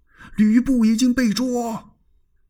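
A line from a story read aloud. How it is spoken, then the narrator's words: Shouting down. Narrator (Chinese): 宋宪就冲着城下边喊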